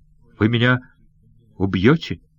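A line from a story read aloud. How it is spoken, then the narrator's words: Trembling voice. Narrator (Russian): дрожащим голосом спросил он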